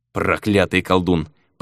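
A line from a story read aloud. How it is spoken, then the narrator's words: Muttering. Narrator (Russian): пробурчал Мигель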